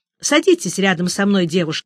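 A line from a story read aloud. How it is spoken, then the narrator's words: Plain. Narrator (Russian): сказала дама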